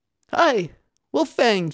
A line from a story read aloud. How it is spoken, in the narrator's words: she cried